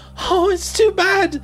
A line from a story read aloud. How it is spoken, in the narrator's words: sobbed Lucy